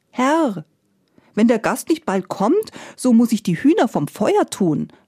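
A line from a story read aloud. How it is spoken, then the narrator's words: Called out. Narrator (German): rief die Gretel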